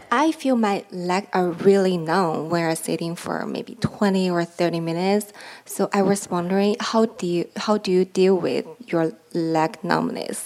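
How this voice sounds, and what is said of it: Non-native English accent. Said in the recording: “I'm a foreigner. I have accent.”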